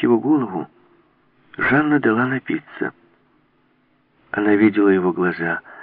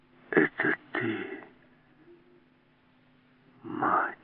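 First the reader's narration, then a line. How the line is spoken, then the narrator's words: Whisper. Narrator (Russian): прошептал он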